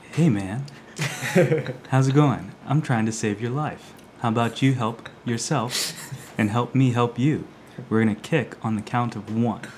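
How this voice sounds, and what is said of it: Soothing, calming voice. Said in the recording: “in a soothing voice”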